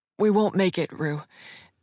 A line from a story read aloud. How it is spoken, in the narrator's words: B panted